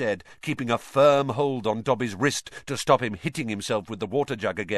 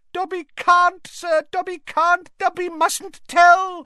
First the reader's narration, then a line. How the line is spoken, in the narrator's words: squealed the elf